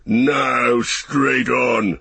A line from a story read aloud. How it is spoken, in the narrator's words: shouted Ugluk